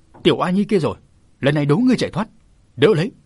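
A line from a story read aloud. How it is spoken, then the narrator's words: Sudden roar. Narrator (Vietnamese): Hắn ta tức thì gầm lên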